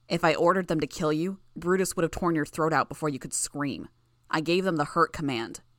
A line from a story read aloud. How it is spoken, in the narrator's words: As her coughing fit subsided, Bitch snarled